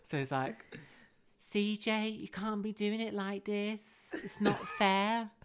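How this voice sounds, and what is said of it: Put-on Scouse Liverpool accent. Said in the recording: “I do a really good Scouse accent ... is this Liverpoolian?”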